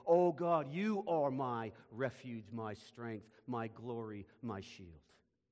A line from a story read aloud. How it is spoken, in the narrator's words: shout out and say